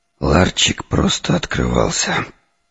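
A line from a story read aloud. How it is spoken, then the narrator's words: Muttered. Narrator (Russian): пробормотал я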